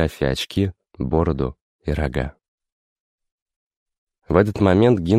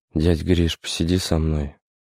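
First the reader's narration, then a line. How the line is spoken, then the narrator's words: Hoarse plea. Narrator (Russian): хриплым голосом попросил Аркашка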